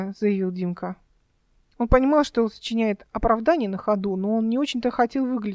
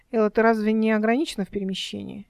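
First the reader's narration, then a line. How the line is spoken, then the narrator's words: Coquettish declaration. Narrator (Russian): Эл с кокетством заявила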